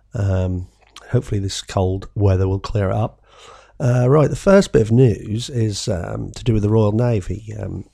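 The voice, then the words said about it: Husky, sore-throated voice. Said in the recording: “Excuse my husky voice. I've got a bit of a sore throat.”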